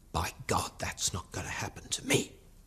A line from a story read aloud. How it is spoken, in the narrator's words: Bruin heard him mutter